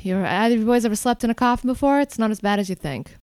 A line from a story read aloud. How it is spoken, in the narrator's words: she just lets out a sigh and says